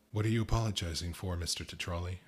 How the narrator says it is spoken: I asked

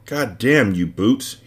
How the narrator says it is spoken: he swore

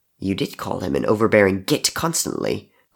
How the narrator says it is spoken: Crow muttered

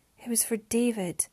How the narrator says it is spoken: Mariana sighed

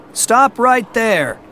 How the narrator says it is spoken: one of the horrors shouted

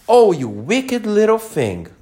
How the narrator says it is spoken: cried Alice

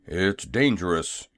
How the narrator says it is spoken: growled Jim in a stubborn tone

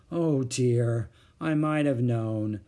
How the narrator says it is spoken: sighed Mother

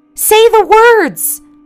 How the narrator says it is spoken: I heard her scream

